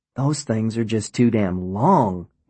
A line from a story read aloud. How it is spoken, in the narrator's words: he exclaimed